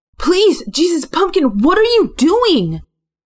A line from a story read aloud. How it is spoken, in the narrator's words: I yelled